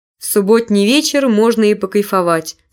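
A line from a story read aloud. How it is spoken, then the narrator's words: Plain. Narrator (Russian): сказал он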